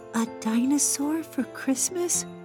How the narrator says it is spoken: she whispered, her tears turning to giggles

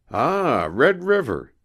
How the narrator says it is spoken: exclaimed Heywood

